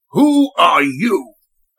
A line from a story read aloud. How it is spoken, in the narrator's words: an authoritative voice barked